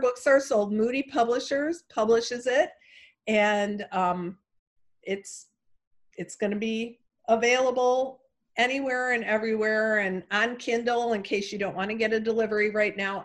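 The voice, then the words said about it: Chicago accent. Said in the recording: “my Chicago accent”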